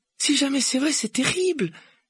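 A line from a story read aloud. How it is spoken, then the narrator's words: Exclaimed. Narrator (French): s'écria Hermione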